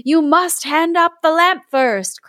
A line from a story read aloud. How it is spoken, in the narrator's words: cried the wizard